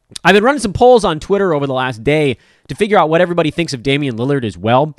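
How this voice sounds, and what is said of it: Tired, worn-out voice. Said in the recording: “I'm tired. My voice is shot.”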